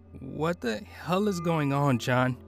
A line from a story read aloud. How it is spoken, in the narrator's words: Sarah asked, her voice trembling